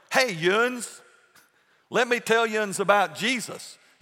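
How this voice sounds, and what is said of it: Put-on East Tennessee hick dialect. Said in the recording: “I'm a hick from East Tennessee ... now they're speaking East Tennessee English ... whatever that dialect is”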